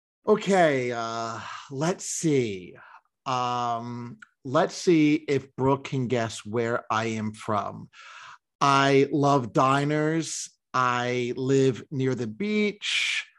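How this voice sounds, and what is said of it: American accent. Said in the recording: “the American accent”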